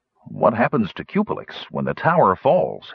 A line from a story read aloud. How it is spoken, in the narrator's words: he asked